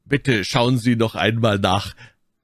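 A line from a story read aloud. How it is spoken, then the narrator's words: Raised voice. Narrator (German): sagte ich mit erhobener Stimme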